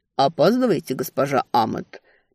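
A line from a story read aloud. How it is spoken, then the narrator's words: Mumbled. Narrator (Russian): пробормотал он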